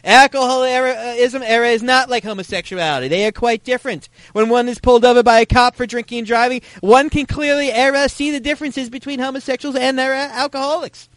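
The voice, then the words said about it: Put-on Northeastern US liberal accent. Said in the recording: “I will be donning my liberal Northeast liberal accent for this a bit”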